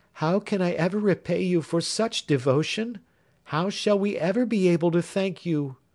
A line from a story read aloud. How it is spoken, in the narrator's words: cried the young girl